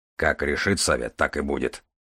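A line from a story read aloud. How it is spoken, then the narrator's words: Grumbling. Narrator (Russian): буркнул Железовский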